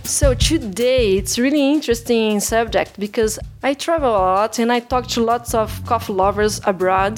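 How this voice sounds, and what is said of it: Non-native English accent. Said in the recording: “my accent is weird”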